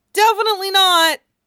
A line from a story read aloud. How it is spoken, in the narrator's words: Wei Wuxian blurted out